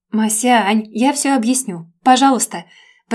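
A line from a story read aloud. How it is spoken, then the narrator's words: Shouting after someone. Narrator (Russian): Прокричала я ей вслед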